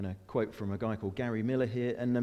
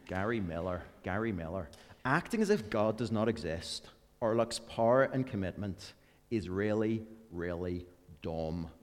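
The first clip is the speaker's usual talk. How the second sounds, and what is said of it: Put-on Northern Irish accent. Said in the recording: “Gary's Northern Irish, and this just sounds so much better in Northern Irish ... I'm just going to do the first sentence, then I'll go back to my accent”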